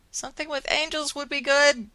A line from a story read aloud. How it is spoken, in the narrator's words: Willow yelled from the phone